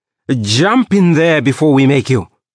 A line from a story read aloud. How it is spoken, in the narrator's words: he snapped